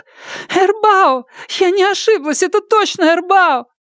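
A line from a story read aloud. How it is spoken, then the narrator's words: Sobbing, repeating. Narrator (Russian): Ляо Яфань всхлипывающим голосом повторяла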